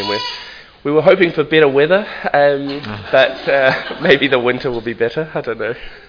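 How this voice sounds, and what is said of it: New Zealand accent. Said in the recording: “you might be able to tell that I have a New Zealand accent”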